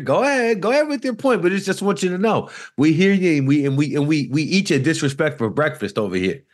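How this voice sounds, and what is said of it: Fake New York accent. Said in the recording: “fake New York accent”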